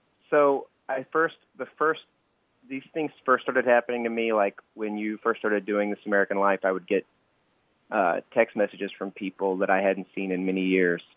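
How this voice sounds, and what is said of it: Syrupy Southern drawl. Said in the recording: “just like a hint of it, a taste ... grow up in the South and get this syrupy, sexy drawl ... Oh, it's strong.”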